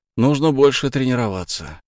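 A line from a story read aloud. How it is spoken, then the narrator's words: Sigh. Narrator (Russian): Козлов вздохнул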